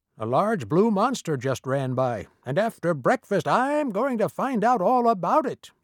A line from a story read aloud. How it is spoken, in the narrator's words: yelled Mr